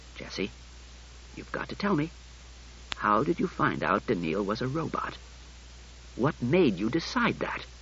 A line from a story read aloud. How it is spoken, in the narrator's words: He said tightly